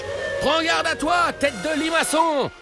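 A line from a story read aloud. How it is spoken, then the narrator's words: Shouting. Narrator (French): lui crie Papa Ninja, parce que c'est le roi de la bonne vanne, Papa Ninja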